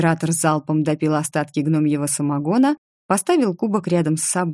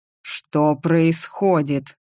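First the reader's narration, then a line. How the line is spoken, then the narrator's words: Growled. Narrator (Russian): зарычал Ричард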